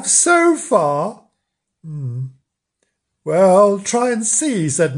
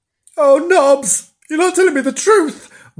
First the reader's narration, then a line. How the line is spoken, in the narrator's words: wailed Bernard, scared